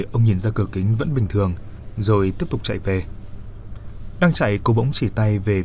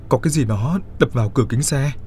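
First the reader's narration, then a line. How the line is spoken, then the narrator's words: Trembling voice. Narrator (Vietnamese): run run nói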